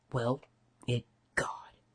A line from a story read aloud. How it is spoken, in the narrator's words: Rodney had muttered